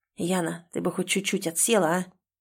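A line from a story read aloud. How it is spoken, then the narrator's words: Grumbling whisper. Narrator (Russian): Бурчу шепотом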